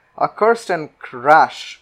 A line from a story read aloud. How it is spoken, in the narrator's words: cried the king